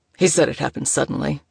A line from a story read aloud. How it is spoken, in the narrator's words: he grunted